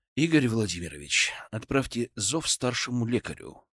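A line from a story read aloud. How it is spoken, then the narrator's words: Plain. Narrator (Russian): сказал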